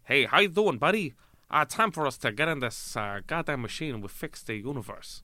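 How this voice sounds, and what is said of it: Put-on American accent. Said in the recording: “That's a flawless impersonation of a British person pretending to be an American person.”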